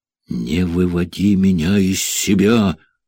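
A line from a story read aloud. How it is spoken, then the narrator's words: Angry warning. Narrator (Russian): злобно предупредила Джека Тереза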